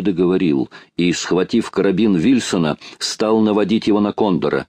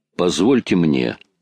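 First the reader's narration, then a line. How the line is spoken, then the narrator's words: Plain. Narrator (Russian): сказал майор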